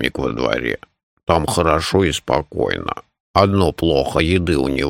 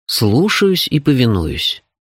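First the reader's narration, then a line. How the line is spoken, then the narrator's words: Sugary servile tone. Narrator (Russian): приторным тоном хорошо выдрессированного джина ответствовал я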